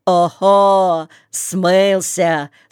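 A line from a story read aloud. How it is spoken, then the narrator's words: Laughing audience. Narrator (Russian): смеялись в публике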